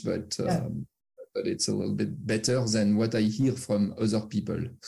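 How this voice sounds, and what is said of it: French accent in English. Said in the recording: “my true French accent ... I cannot hide that I'm French”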